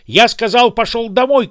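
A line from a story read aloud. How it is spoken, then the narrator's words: Shout. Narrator (Russian): крикнул он мне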